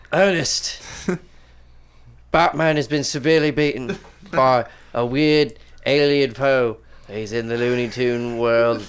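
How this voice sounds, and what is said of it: Shifting imitation of a character's accent. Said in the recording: “Alfred was Jim Jeffries ... what was going on with the accent ... He started with animated series Alfred. He then went to Batman v Superman Alfred. Now he's Jim Jeffries.”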